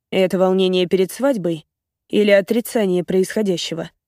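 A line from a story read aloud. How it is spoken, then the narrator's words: Calm question. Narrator (Russian): спокойно спрашивает он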